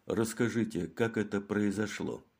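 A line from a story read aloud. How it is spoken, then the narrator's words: Soft, gentle. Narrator (Russian): мягко сказал Мегре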